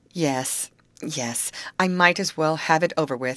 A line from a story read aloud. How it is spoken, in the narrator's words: faltered the weeping one